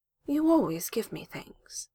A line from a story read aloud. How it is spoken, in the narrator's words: says quietly